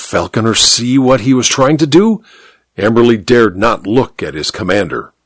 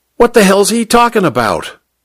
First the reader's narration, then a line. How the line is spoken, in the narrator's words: Popeye wanted to know, his accent harshly American